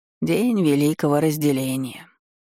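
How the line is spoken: Sad sigh. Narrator (Russian): грустно вздохнул Швабрик

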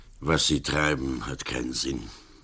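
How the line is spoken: Grumbling. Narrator (German): Berlach brummte

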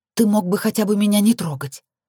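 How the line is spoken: Bitter, exhaled. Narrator (Russian): ожесточенно выдохнула

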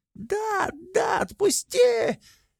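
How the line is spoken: Squealing. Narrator (Russian): Визжал Вей

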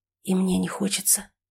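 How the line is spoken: Whisper. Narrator (Russian): прошептал

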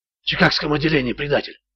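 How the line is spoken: Breathless exhale. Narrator (Russian): выдохнул Ричард

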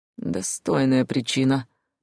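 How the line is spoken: Gruff chuckle. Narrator (Russian): грубовато хохотнул дракон

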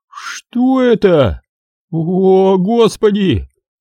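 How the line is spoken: Moaning. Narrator (Russian): простонал один из ученых

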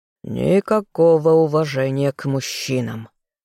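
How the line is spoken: Irritated remark. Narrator (Russian): раздраженно прокомментировал лорд Карлтон

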